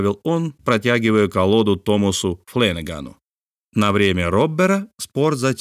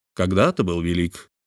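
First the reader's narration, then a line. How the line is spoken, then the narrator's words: Low-voiced remark. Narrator (Russian): вполголоса заметил Филиас Фок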